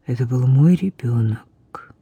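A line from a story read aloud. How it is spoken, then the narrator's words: Hollow, muffled voice. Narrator (Russian): глухо произнес Тайль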